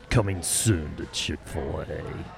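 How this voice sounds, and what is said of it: Dramatic movie trailer announcer voice. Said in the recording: “Do your movie trailer voice. ... You do have a very good one. ... Perfect.”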